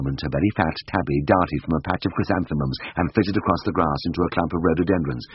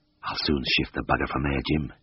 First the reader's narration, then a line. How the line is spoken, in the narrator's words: whispered